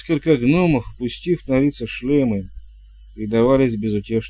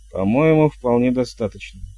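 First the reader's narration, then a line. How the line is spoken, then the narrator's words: Calm remark. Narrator (Russian): спокойно заметил Хью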